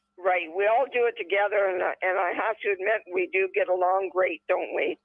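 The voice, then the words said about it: Canadian accent. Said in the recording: “my Canadian accent”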